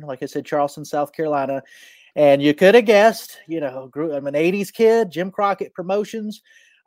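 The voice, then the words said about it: Southern American accent. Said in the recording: “My accent, you know, is definitely Southern.”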